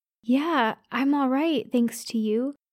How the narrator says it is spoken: I said shakily

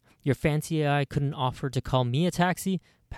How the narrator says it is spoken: Patrick asks

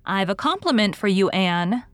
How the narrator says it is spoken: said Diana

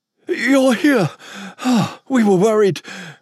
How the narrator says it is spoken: William said between heaved panting

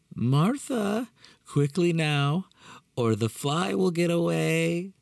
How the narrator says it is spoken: he exclaimed cheerfully

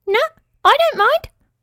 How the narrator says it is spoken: squeaked the claw

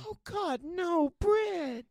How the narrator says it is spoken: She pleaded with me

